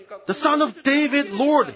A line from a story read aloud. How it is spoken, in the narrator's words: cried out